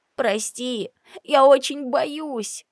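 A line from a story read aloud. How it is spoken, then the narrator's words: Tearful whisper. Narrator (Russian): шептала она мне сквозь слезы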